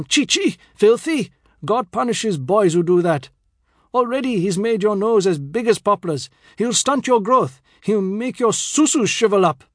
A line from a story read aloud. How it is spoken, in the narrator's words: He roared on